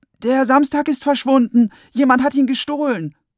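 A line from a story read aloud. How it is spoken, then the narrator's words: Shout. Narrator (German): Finn schreit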